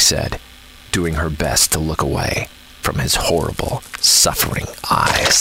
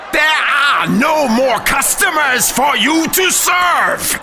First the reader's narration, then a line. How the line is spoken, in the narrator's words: Professor Egghead screeched